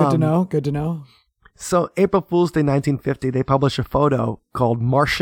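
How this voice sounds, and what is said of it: Usual voice. Nothing is said of it.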